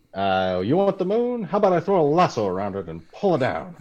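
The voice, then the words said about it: Imitates a film character's accent. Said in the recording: “You nailed the accent pretty well.”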